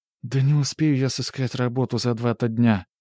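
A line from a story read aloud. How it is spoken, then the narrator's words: Sighing. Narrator (Russian): вздохнула Ольга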